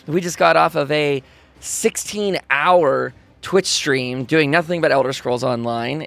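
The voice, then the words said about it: Worn-out, strained voice. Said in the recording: “my voice is pretty destroyed today”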